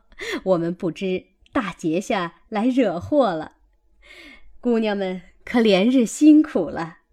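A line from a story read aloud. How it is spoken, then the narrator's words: Hurried laughing. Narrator (Chinese): 那媳妇们忙笑道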